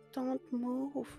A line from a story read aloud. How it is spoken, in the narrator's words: the girl whispered